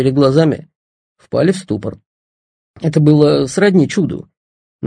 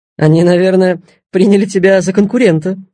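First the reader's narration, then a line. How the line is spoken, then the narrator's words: Laughing. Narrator (Russian): смеялся Паша Ноженко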